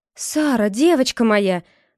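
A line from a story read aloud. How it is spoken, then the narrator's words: Exclaiming. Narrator (Russian): воскликнула Гвен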